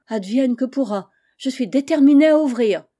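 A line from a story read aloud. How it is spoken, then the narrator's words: Exclaimed. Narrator (French): s'écria Pandore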